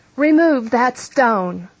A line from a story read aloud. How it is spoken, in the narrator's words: shouts Jesus all of a sudden, after wiping his tears